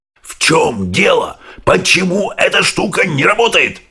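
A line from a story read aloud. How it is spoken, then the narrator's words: Shouting. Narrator (Russian): закричал президент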